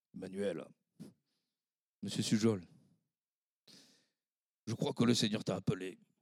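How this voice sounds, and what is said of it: Imitating a pastor's accent. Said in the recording (French): “le pasteur de l'époque m'avait dit ceci, avec son accent”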